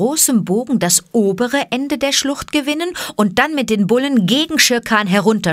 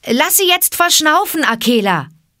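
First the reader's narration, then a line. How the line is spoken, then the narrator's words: Calling out. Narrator (German): rief Mowgli dem Wolfe zu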